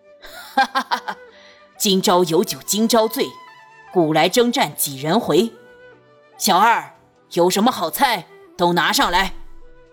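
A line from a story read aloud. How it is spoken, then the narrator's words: Loud, laughing. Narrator (Chinese): 孙家大笑着，高声道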